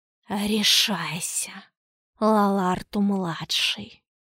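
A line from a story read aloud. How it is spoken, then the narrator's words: Cold hiss. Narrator (Russian): Холодно прошипел Йог-Сатходх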